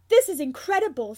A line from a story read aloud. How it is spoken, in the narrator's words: Sirius exclaims